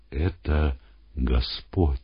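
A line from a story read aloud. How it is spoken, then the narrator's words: Sudden whisper. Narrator (Russian): Иоанн, пытаясь разглядеть стоящего, вдруг шепнул Симону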